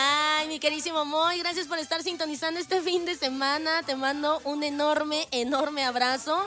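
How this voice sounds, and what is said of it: Usual voice. Nothing is said of it.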